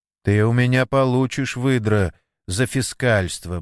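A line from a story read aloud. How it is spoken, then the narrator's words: Grumbled. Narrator (Russian): буркнул Вадик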